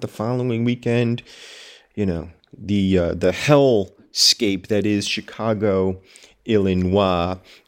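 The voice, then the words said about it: Sarcastic tone. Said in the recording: “I am, of course, being sarcastic when I mention Chicago”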